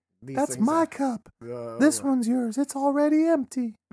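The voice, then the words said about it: Impression of the mayor's mom. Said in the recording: “my impersonation of the mayor's mom”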